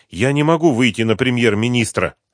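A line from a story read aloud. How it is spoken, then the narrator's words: Irritated. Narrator (Russian): раздраженно сказала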